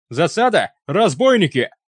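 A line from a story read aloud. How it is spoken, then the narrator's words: Yell cut off by death rattle. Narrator (Russian): Запоздало заорал кто-то из охранников, и его голос тут же оборвался булькающим предсмертным хрипом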